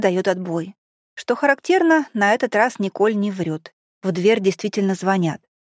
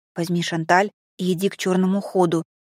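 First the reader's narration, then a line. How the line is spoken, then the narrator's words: Whispered order. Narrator (Russian): шепотом приказываю я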